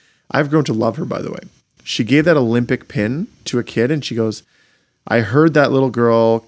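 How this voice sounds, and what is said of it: Usual voice. Nothing is said of it.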